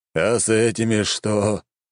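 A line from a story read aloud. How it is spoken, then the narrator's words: Old man's doomed exhale. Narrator (Russian): обреченно выдохнул старик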